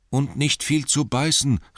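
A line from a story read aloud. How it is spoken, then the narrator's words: Called out. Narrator (German): rief Bilbo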